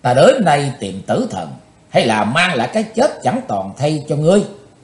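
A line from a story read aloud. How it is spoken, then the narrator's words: Loud shout. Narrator (Vietnamese): Chí tôn quát to lên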